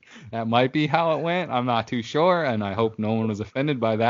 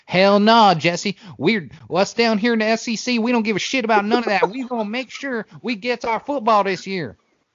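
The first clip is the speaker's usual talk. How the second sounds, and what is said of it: Put-on Southern redneck accent. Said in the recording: “every redneck and hillbilly that roots for anyone in the SEC ... that accent ... That was so good.”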